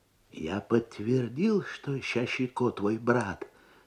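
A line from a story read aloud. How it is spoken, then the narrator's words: Low voice, in Abkhaz. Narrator (Russian): сказал ему писарь по-абхазски вполголоса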